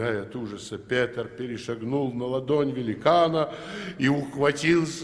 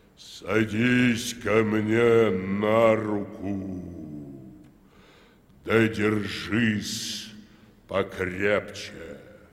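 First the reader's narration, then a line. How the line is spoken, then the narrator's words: Hollow, funereal bell-like voice. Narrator (Russian): сказал глухим голосом, как погребальный колокол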